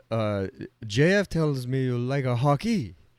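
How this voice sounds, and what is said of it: Poor put-on French-Canadian accent. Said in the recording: “that was a terrible French-Canadian accent.”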